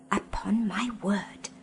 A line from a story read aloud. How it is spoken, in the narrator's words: whispered Fledge to Polly